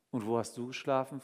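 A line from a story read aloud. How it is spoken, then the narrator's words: Plain. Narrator (German): fragte ich Ramon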